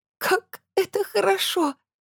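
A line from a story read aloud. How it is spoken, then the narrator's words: Strained, between sobs. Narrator (Russian): выдавила из себя между всхлипами Лора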